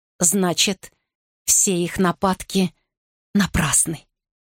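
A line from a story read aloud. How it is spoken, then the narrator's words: Quiet. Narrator (Russian): тихо произнес Генрих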